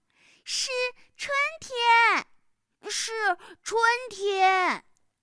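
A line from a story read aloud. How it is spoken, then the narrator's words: Shouting in unison. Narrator (Chinese): 他们俩 齐声的叫道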